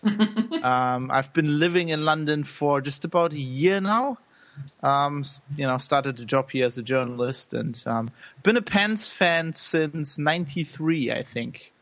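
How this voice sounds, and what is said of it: German accent, not British. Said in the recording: “I do not sound very British. That's because I was born in Germany”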